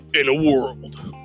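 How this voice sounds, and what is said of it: Epic movie trailer voice. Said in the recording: “do the epic movie voice”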